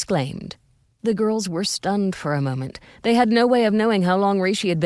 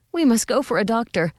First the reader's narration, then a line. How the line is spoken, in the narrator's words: Bess gasped